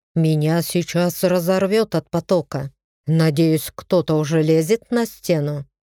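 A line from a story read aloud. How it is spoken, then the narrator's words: Displeased tone. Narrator (Russian): недовольным тоном сказал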